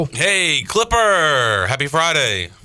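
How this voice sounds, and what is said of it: Radio announcer voice. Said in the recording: “Is that your radio voice?”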